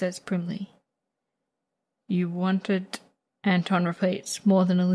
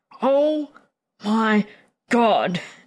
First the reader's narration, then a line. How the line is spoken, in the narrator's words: Anton groans